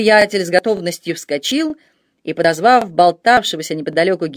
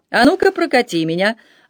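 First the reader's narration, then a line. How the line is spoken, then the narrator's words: Cheerful, smiling. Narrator (Russian): радостно улыбаясь, сказал Аманьян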